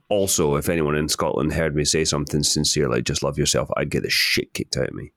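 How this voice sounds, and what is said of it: Scottish accent. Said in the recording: “my accent because it sounds like I'm being sarcastic”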